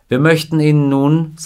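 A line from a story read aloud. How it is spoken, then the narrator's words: Plain. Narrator (German): sagte Randall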